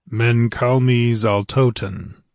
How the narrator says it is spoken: reply, in a strong, golden voice

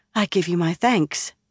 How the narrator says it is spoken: Nynaeve said a touch breathlessly

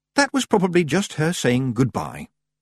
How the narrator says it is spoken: She relaxed and said sweetly

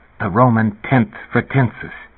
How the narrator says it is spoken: Elias said in a low, harsh voice

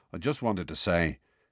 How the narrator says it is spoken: he mumbled

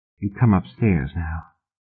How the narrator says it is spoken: she whispered, working her mouth free

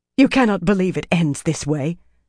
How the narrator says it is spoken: Aramilla said hoarsely

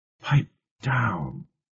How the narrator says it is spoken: Eleanor whispered urgently

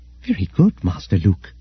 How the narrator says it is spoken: said 3PO softly

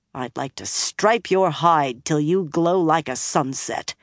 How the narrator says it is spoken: Nynaeve growled

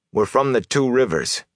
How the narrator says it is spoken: he said quickly

